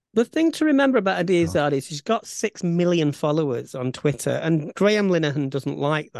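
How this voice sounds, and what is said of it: Bolton accent. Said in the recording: “my Bolton accent”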